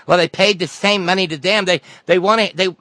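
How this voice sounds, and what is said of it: Mocking impression of Hillary Clinton. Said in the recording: “I'm doing a voice. I'm sorry. I'm not allowed to do a voice when we're talking about Hillary.”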